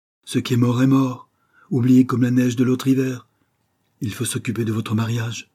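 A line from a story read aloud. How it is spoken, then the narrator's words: Curt voice. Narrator (French): continua-t-elle d'une voix brève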